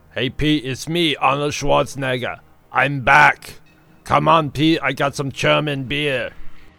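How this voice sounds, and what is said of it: Terrible Arnold Schwarzenegger impression. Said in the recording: “did a terrible impersonation”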